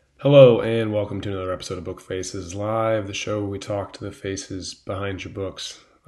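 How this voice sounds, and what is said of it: Voice still affected by a cold. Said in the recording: “as you may be able to tell from my voice, I was getting over a cold. ... I didn't have a voice last week”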